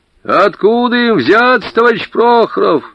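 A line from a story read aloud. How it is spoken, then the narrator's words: Shouted reply, old man. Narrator (Russian): прокричал в ответ старик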